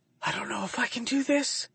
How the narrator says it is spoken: she whispers guiltily

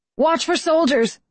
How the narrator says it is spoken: I shout

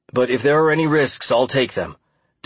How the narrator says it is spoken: Dan said

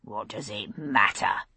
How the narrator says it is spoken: came a sullen rumble from someone

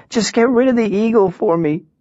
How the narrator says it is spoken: she said, her sobs childlike half-screams

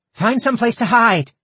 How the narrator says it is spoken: Indri shouted after them

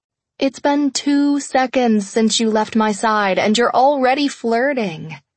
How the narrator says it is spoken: I called out

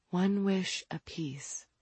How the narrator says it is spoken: Franny whispered

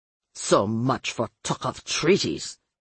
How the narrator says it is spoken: Luis Cesar snapped

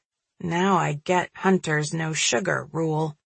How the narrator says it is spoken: muttering

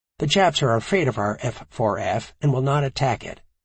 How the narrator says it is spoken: he said

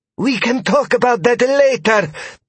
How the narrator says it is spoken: Thea exclaimed

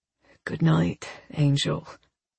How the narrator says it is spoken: he murmurs

